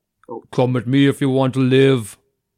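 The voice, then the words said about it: Austrian-accented movie character impression. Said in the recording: “do my impression ... Can I hear the impression? ... That's an impression, all right. ... you're not Austrian”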